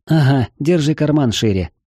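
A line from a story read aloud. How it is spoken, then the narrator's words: Snorting. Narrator (Russian): фыркнула Лу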